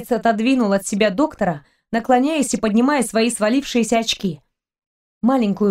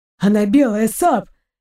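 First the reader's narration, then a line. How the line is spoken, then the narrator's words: Hoarse whisper. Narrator (Russian): хрипло зашептал Торн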